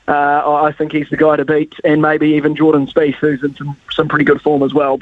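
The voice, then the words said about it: Excited voice. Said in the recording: “as you can probably hear in my voice, Ricardo, I'm pretty excited.”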